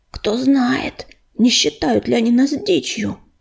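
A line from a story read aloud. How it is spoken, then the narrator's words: Hissed. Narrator (Russian): прошипел Грачик, стоявший рядом с ней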